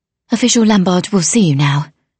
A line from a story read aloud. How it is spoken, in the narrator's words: she said breathlessly